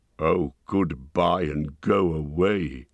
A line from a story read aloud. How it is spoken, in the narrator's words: grunted the dwarves, all the more angry because they were really filled with dismay at losing him